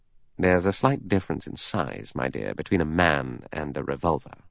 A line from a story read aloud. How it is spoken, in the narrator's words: Lombard murmured